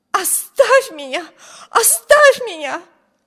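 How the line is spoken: Wild, alarmed scream. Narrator (Russian): дико закричала Эми, принесшая дурные вести, встревожена ужасным видом юной леди

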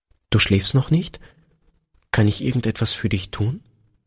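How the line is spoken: Hesitant soft question. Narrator (German): Einen Augenblick zögerte Peter, dann fragte er leise

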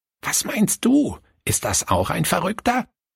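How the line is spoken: Grandmother whispering. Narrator (German): flüsterte die Großmutter

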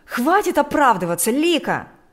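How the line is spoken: Shout from another room. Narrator (Russian): кричал Игорь из спальни

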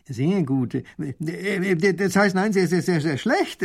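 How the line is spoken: Stuttering. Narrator (German): stottert der Baron

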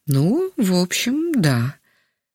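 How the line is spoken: Hesitant. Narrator (Russian): немного неуверенно кивнул головой Яков Иванович

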